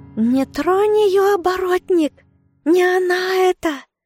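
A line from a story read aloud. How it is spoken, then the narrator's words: Shrill screeching. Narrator (Russian): Котофей заверещал дурным голосом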